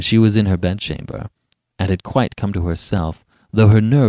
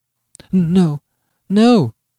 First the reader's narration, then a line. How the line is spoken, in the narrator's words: faltered, shuddering